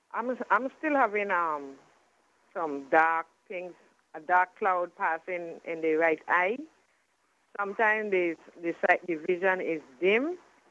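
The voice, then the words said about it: Very heavy accent. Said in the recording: “I'm having trouble with your accent. It's very heavy.”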